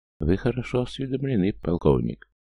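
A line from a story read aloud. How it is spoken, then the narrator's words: Soft, smiling. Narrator (Russian): мягко улыбнулся гражданский министр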